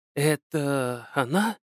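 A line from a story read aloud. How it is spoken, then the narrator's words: Whispered question. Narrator (Russian): Почему-то шепотом спросила Виктория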